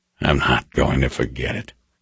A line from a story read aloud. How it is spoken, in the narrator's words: said quietly